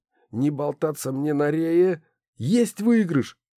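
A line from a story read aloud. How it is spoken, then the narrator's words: Exclaimed. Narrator (Russian): воскликнул Кирилл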